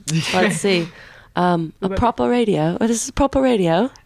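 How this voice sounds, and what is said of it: Attempted English accent. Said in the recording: “Can you do your best English accent for us? ... I feel like I get too, like, proper when I say it.”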